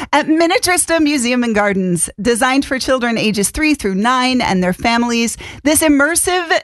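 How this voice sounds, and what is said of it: Usual voice. Nothing is said of it.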